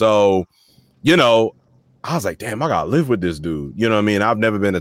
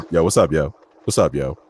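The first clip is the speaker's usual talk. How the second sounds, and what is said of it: Deep voice. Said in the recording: “this deep voice comes on the phone”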